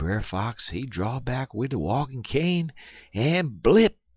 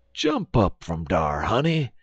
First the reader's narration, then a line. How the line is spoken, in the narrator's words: exclaimed Uncle Remus